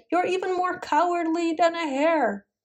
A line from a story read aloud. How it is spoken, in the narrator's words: being yelled at